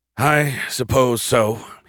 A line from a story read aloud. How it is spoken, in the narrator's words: he sighed